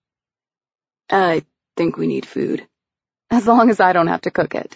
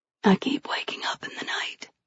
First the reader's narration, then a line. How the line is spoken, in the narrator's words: she whispered